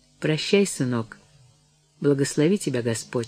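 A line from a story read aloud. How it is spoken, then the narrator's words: Quiet. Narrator (Russian): сказала тихо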